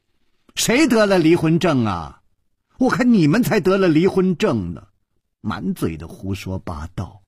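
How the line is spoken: Loud, angry. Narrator (Chinese): 那个尸体的脸好像气红了，他大声地说

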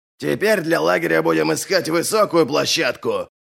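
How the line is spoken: Barked. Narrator (Russian): рявкнул Ральф

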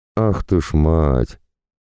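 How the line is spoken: Drawn-out chorus. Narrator (Russian): Хором из совершенно одинаковой интонации протянули Всеслав внутри и рысь снаружи

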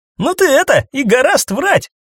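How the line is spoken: Disbelieving. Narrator (Russian): Не поверил заряжающий

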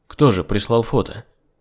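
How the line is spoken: Plain. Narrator (Russian): спросил я

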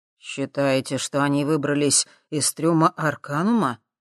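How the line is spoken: Plain. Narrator (Russian): спросил Михалыч

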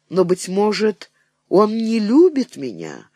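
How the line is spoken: Exclaimed. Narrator (Russian): воскликнула Марья Осиповна

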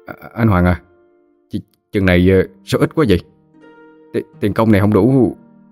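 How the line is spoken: Surprised trembling question. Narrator (Vietnamese): hơi ngạc nhiên run run giọng hỏi

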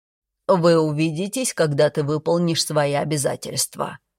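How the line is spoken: Repeated reminder. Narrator (Russian): в очередной раз напомнил отец

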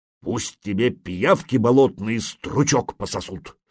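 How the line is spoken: Grumbling. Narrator (Russian): проворчал Свей

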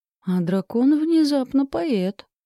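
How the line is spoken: Bewildered remark. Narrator (Russian): растерянно отметила я

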